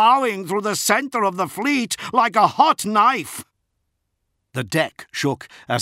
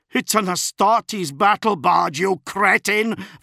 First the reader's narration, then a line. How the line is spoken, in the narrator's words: Van Aunger spat at him